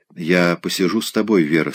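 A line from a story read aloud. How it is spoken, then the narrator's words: Plain. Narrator (Russian): сказал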